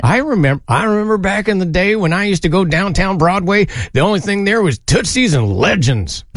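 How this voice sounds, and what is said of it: Cartoon prospector character voice. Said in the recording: “in that exact same voice... Yosemite Sam”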